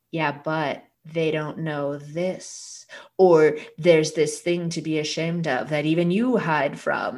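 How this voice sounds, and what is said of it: Put-on inner-voice character accent. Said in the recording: “this is your inner voice's accent, by the way, it talks like that.”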